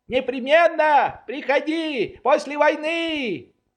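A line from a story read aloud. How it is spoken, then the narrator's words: Shouted. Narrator (Russian): Швейк закричал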